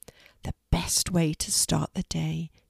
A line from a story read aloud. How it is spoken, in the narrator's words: she would whisper